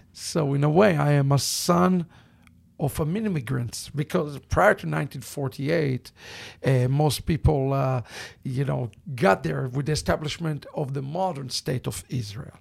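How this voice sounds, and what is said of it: Thick Israeli accent. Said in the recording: “my thick accent ... I was born in Israel”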